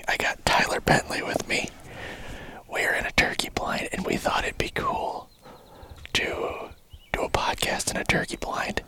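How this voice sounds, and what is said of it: Whispering. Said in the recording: “We are whispering.”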